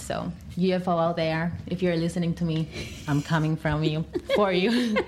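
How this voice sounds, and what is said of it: Spanish accent. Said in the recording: “sorry, my Spanish... You almost sounded like a little alien... that was the Spanish accent”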